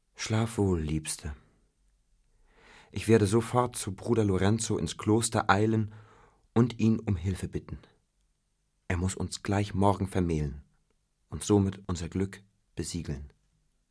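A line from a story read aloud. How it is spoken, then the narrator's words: Dreamy sigh. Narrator (German): traumverloren seufzte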